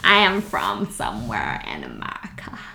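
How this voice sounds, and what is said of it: Poor, droning put-on American accent. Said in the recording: “Why don't you sound American then? ... This is my droney American accent. ... You've not got any better, have you?”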